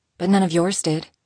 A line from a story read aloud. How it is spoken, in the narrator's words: she quickly added